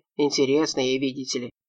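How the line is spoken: Good-natured grumble. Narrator (Russian): беззлобно проворчал Кочубеев

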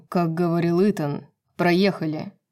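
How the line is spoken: Through gritted teeth. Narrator (Russian): Процедил Рун

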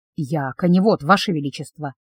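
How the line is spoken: Barely audible whisper. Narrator (Russian): едва слышным шепотом сказал

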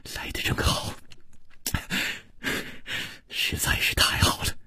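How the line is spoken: Soft, gentle. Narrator (Chinese): 楚留香 柔声说

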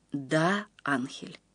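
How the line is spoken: Quiet. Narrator (Russian): тихо сказал Гаптен

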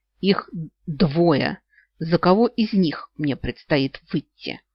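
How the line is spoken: Hoarse, strained with anger. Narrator (Russian): выдавила из себя хриплым от злости голосом

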